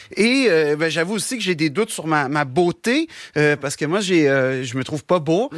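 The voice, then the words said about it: Québécois French accent. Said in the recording (French): “j'ai un accent ... l'accent québécois”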